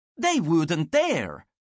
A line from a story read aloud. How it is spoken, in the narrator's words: one of Frederick Hendrick's courtiers had exclaimed